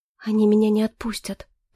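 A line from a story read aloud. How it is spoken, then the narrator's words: Whisper. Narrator (Russian): прошептала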